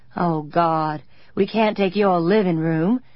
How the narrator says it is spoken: Colin groaned

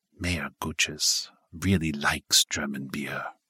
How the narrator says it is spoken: She said in a low, conspiratorial tone

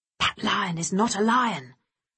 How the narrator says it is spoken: the baboon whispered to the others

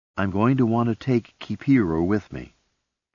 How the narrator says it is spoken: Jillian said

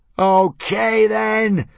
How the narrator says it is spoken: screamed Hiccup

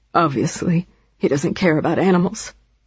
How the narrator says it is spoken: she added quietly

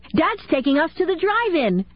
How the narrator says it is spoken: Kenny said excitedly

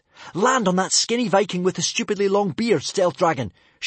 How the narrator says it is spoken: shrieked Hiccup

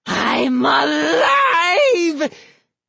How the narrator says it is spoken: He screamed

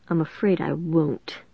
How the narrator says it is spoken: Melody mutter to herself

